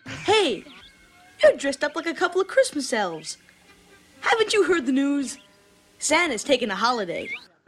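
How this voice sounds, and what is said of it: New York accent. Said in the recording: “He's got his New York accent.”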